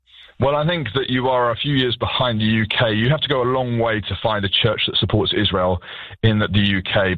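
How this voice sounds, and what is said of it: British accent. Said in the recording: “Your accent reminds us that you really are from the UK”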